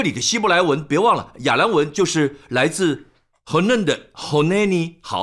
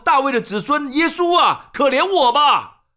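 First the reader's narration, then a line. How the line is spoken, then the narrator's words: Crying out. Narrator (Chinese): 他…就喊着说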